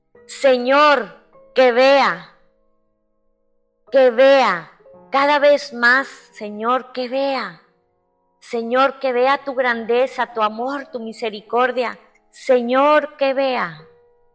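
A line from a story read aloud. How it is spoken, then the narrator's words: Forceful crying out. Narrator (Spanish): grito con igual fuerza que el ciego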